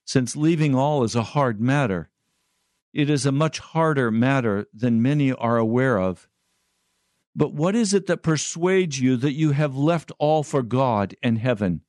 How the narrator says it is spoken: Christian exclaimed

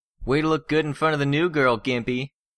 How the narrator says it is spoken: Alec mocked his teammate, laughing

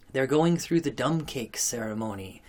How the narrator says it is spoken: whispered Mrs

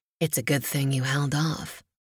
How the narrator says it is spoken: he murmured

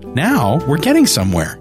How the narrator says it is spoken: she said, bouncing excitedly

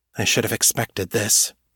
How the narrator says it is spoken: Kate said quietly

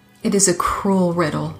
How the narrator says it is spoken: the old woman whispered

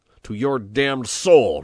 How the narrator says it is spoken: roared Peppone furiously

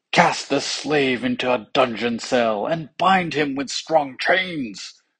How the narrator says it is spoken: cried the king

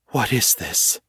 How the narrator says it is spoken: whispered

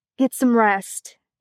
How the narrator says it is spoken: he said, his voice rough

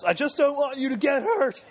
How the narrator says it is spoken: screams at the top of his lungs

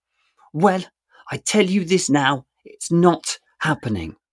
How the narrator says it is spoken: Sophie hisses

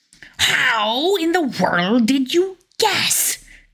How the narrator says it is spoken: cried Koschei in a fury

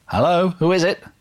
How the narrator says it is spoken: a woman's voice called out

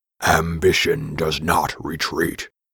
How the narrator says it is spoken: growled Tausret

